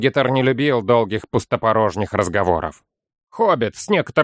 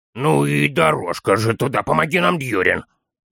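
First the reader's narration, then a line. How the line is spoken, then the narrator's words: Mournful groan, small one. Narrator (Russian): Простонал малыш, горестно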